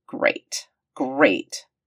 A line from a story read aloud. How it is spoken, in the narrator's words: McKay grumbled